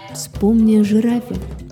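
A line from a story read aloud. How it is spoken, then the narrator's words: Plain. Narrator (Russian): сказал Эфиоп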